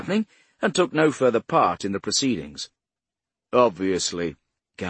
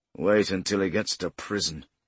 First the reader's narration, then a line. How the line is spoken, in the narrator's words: Gamble murmured